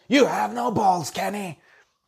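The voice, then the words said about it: Imitates another person's voice. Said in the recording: “that was a bad impression.”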